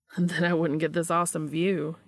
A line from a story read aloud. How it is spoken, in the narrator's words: retorted